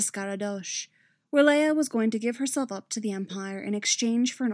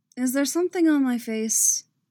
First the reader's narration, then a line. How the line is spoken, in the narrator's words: Leia asked dryly